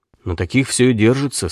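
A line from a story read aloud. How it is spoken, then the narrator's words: Quiet. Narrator (Russian): сказал Дима негромко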